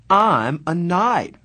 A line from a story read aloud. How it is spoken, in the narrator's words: Marcia said brightly